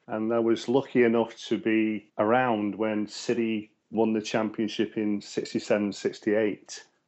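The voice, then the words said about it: Manchester English accent. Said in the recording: “my cultured accent, that I'm originally from Manchester”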